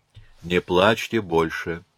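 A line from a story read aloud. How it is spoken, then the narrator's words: Sighing after a pause. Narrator (Russian): помолчав, вздохнул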